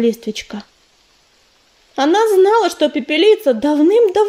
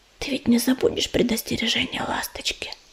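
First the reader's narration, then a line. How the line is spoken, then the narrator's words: Whispered. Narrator (Russian): Листвечка прошептала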